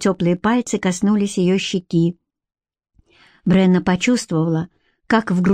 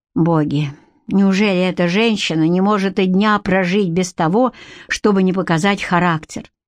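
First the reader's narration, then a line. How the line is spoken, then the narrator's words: Inner sigh. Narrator (Russian): вздохнул про себя Гарик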